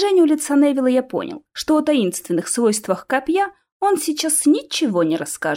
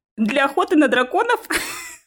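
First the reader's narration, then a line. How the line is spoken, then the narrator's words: Bursting out laughing. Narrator (Russian): расхохотался я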